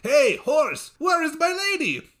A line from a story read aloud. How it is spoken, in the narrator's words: He shouted to his horse